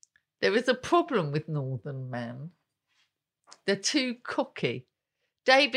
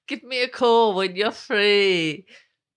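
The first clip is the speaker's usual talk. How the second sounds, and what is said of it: Poor attempt at northern English accent. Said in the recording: “He has a northern accent. ... Is that northern? ... No, I've no idea what that was. You're not accents are not your forte.”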